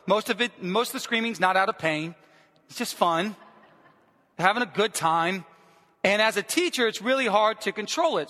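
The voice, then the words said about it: Hoarse, strained voice. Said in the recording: “Screaming, yelling. That's why my voice is like this right now. ... I had zero voice. ... I couldn't talk. I couldn't get anything out.”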